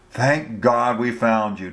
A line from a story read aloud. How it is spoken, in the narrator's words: Beasley exclaimed